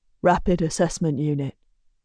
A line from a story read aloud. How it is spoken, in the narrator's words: Griffin says quietly